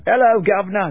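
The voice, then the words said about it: Bad put-on British accent. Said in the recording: “British accent was as bad as mine”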